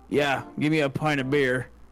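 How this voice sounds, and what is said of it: Southern American trucker accent. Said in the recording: “I don't know why I sound like a southern trucker”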